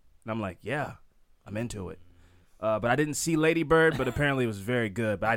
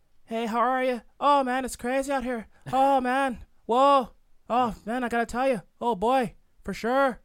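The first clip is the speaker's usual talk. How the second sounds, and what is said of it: Imitated Irish accent. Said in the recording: “She's Irish. It's purely the accent.”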